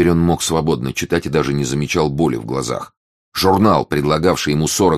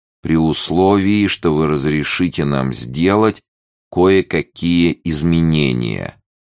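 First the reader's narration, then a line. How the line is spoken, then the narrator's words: Slow syllable-by-syllable reading. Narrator (Russian): медленно читала Тереза по складам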